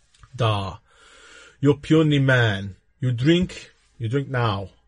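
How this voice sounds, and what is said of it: Weak put-on Russian accent. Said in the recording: “I haven't got a really good Russian accent, I'll be honest. It's not that great.”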